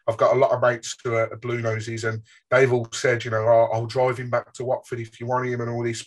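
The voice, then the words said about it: Birmingham English accent. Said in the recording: “as you can probably tell from my accent sticking out like a sore thumb, I'm from Birmingham myself”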